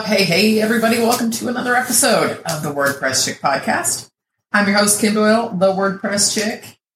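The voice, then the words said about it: Deep early-morning radio DJ voice. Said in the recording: “Sorry, it's early in the morning, and I'm on coffee number two, so someone thinks she's Wolfman Jack and is going to just be the radio voice of the decade here.”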